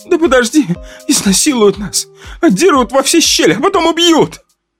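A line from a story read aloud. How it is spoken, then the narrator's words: Sobbing. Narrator (Russian): зарыдала блондинка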